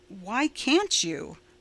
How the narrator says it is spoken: Roy asked more calmly

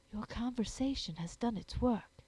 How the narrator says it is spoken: she whispered

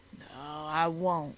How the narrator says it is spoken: said Hall wearily

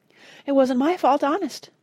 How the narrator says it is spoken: pleaded Ethelred

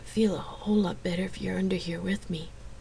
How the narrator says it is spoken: Xena had murmured

